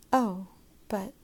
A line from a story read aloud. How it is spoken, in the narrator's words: Margot whispered, her eyes helpless